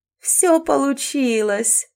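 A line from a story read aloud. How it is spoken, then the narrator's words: Laughing death. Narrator (Russian): засмеялась смерть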